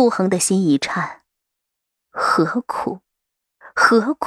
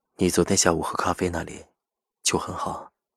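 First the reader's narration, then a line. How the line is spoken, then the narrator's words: Gentle, soft. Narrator (Chinese): 赵世南柔声说道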